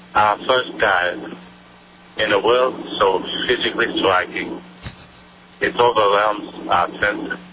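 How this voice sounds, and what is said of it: Imitates another person's voice. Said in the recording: “my imitation of Jacques Cousteau ... one of those guys that nobody does an impression of”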